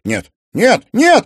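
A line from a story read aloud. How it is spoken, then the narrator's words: Desperate shout. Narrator (Russian): отчаянно крикнул Тимофей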